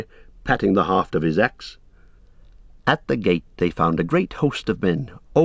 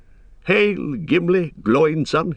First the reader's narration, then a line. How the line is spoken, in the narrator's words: he cried